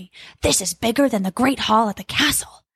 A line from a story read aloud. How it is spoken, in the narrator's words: Jack whispered softly